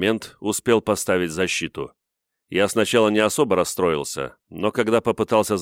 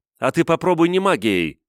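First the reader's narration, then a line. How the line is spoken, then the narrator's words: Shouted. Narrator (Russian): крикнула она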